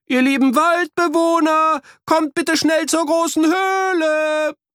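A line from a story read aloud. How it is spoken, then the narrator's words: Shouting as loud as possible. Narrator (German): riefen, so laut sie konnten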